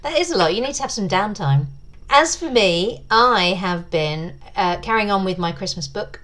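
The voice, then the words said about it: Silky English accent. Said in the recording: “I'm a sucker for English accents. You guys have such silky voices ... It's your accent”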